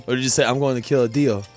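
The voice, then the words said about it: Imitates another person's voice. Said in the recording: “That was a really good impression... Yeah, it was a good impression... I feel like you just nailed that one.”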